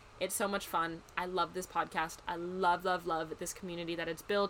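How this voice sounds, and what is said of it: American Midwest accent. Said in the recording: “my silly little Midwest accent”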